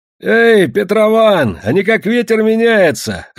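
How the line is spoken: Lively shout. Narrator (Russian): оживленно крикнул Кешка

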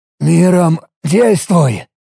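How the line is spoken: Hoarse request. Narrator (Russian): севшим голосом попросил

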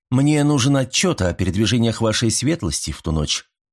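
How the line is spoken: Calm speech. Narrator (Russian): спокойно сказал он

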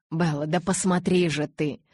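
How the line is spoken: Almost barked. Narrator (Russian): Почти рявкнул он

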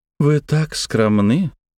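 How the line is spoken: Charming tone. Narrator (Russian): чарующим тоном проговорила Агнесса

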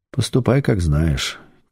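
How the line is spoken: Quiet. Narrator (Russian): тихо ответил шеф

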